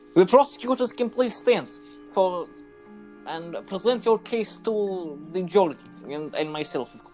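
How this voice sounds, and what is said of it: Put-on Eastern European Russian accent. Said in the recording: “I'm just going to switch to Eastern European / Russian because that's my best one.”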